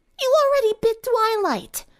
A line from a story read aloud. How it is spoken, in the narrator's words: Rainbow yelled